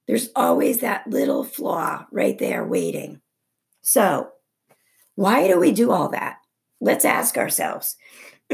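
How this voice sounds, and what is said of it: Strained, fading voice. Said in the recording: “I'm starting to lose my voice”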